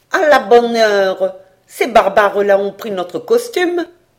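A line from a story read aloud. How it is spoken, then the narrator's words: Exclamation. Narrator (French): s'écria une sorte de secrétaire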